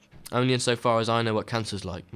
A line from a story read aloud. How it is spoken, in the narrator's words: Matthew said